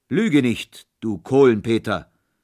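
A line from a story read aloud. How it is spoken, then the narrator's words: Thundering shout. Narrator (German): rief Holländer Michel mit donnernder Stimme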